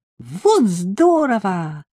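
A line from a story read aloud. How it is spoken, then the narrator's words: Shouting. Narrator (Russian): закричала она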